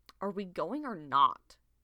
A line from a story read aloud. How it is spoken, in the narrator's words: Crowfeather growled